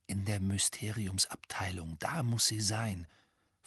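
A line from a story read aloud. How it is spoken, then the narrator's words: Whispered. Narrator (German): flüsterte Harry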